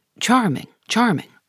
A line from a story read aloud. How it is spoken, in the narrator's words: Lord Henry murmuring